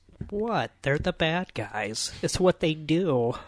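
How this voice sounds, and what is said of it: Imitates another person's voice. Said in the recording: “best Margot Robbie impression I think anyone's ever done... That was really good.”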